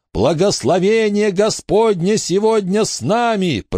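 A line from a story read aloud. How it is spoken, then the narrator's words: Shouting. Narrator (Russian): прокричал Уэйн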